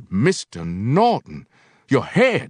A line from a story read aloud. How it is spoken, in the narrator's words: he cried, a strange grandmotherly concern in his voice